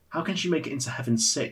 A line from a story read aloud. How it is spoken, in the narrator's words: she said